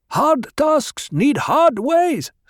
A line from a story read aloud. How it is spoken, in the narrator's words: someone shouted